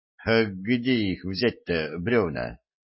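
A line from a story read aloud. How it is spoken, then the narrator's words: Young man's uncertain question. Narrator (Russian): неуверенно спросил юноша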